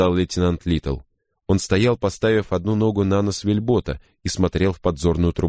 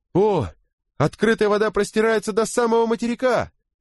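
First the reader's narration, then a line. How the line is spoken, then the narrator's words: Sailor shouting. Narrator (Russian): прокричал матрос по имени Берри со своего места на веслах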